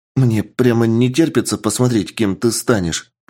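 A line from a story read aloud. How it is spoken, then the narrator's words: Excited voice. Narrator (Russian): произнес некромант взбудораженным голосом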